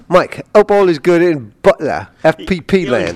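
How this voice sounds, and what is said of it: Put-on English accent. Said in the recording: “You're not going to do the Ian accent? ... I don't know if I can talk like Ian, but I'll put an English accent on.”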